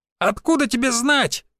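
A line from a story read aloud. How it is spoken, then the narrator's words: Shrill squeal. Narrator (Russian): взвизгнул кучерявый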